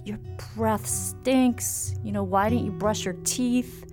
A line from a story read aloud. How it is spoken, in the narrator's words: was just shouting and getting really angry